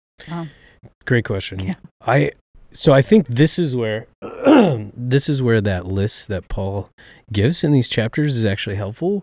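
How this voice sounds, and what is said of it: Hoarse voice with a cold. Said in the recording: “me having a cold for the last 2 weeks... I'm coughing all the time. I've got a sore throat.”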